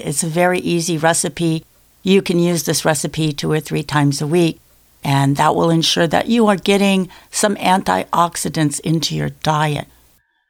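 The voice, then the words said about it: Strained voice getting worse. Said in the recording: “I know my voice is going from bad to worse.”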